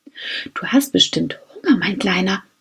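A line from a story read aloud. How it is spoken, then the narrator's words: Whispering. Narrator (German): flüsterte Max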